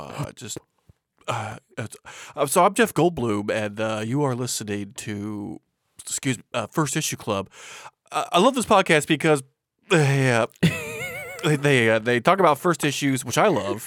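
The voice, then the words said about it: Halting voice like holding back a burp. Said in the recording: “my Jeff Goldblum impression ... he does this thing like where he's trying to talk like this, like he's trying to hold back a burp like that”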